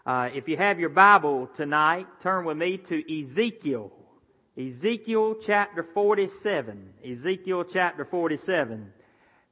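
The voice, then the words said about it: Speaks with a noticeable accent. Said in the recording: “I know I may have a little bit of an accent ... I thought that they were going to call out an interpreter ... I may make it three syllables, amen”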